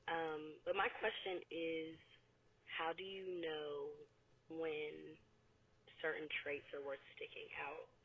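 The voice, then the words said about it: Sick, under-the-weather voice. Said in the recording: “excuse my voice. I'm a little under the weather right now.”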